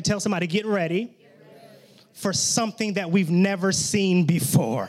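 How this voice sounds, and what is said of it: Excited, hyped preaching voice. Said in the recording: “my voice gets excited and I get hyped”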